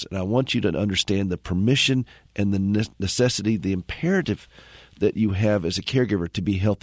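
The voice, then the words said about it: Slightly hoarse voice. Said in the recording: “I'm a little bit hoarse. I'm starting to sound like Bill Clinton.”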